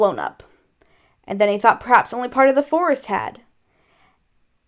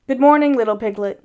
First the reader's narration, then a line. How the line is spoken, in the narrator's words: said Eeyore